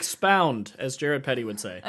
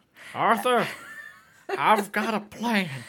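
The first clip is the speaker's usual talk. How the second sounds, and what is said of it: Poor impression of a character's voice. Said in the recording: “That was a really bad Dutch impression ... It was really bad.”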